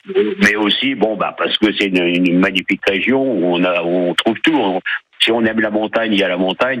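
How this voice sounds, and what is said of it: Slight northern French Ch'ti accent. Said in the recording (French): “vous êtes du Nord, hein, ça s'entend un petit peu, vous avez encore gardé l'accent ch'ti”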